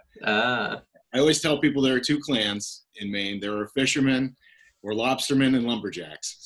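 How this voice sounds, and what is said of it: Slight Canadian-sounding Northern Maine accent. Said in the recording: “You're going to hear a Canadian accent in my outside a little bit.”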